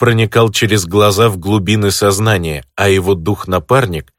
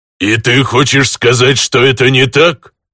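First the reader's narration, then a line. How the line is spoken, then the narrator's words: Growling orc chieftain. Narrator (Russian): Рычащий голос вождя всех орков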